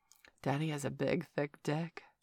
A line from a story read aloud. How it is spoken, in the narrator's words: purred Valerie